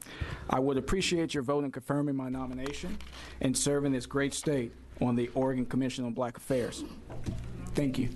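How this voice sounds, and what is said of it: Southern US accent. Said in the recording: “Can you pick up my southern accent? ... Yes. ... I came from North Carolina.”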